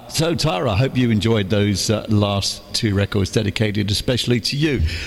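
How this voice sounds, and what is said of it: Hoarse, sore-throated voice. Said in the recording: “I've got a bit of a sore throat.”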